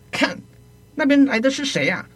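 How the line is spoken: Shouting. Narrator (Chinese): 对着吕伯奢大叫

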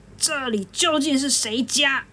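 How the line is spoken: Giant's roar. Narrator (Chinese): 巨灵神啊，吼了一声说

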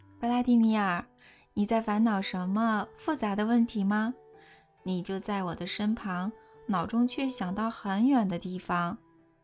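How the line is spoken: Warm, smiling, gentle. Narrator (Chinese): 带着微笑，温柔地说

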